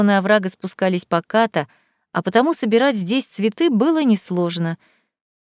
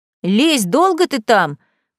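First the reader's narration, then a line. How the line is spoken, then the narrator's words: Distant shout. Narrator (Russian): крикнул с дороги Василий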